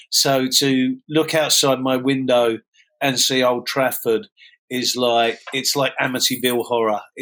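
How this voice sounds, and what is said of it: Mockney London accent. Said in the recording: “I disguise myself as a Mockney ... Mockney. This is all fake, this accent. I'm first generation Mockney.”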